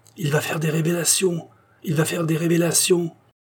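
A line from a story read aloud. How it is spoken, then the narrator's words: Many voices exclaiming. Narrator (French): s'écriait-on de tous côtés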